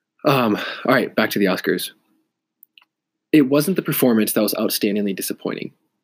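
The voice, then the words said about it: Stuffy, congested voice from cold. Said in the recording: “I have a cold. So I'm a little stuffy. My nose is runny”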